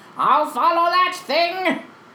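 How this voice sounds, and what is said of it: Skeletor cartoon villain voice. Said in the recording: “That's an amazing Skeletor impression. ... That's really good.”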